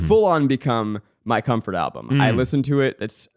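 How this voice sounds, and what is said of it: Usual voice. Nothing is said of it.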